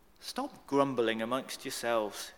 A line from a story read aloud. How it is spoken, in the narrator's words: Jesus answered